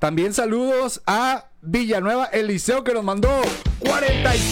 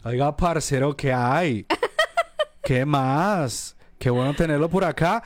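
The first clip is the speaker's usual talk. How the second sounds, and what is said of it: Put-on Colombian Spanish accent. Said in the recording (Spanish): “Me encanta ... el acento de ... Colombia.”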